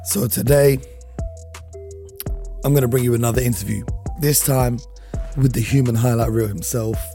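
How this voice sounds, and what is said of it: Worn, strained voice. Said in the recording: “my voice is a little bit ... my voice will hopefully be back tomorrow ... the voice is a little bit peak right now”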